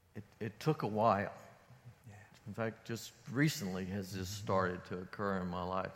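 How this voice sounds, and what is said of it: Emotional, voice breaking. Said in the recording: “I'm getting a little bit emotional”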